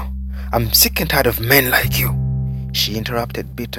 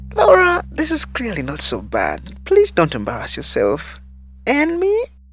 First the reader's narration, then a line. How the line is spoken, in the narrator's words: Daisy, shyly chuckling blankly, squeaked